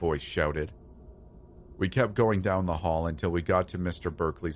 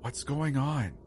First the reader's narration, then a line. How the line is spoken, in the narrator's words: Rachel whispered